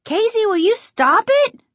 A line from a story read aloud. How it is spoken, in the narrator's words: She screamed